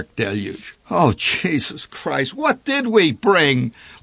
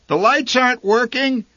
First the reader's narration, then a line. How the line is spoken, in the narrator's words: she called out into the rain